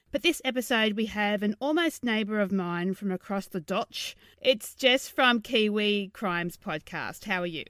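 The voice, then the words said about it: Put-on New Zealand accent. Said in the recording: “How was my Kiwi accent? ... Average.”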